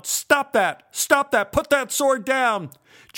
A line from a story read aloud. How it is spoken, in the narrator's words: yelled